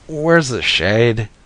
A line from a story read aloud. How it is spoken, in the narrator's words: I moaned